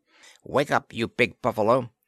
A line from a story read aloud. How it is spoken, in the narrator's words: Planter heard him snarling